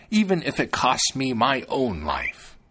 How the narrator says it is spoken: she exclaimed

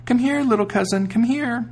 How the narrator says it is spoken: cried out

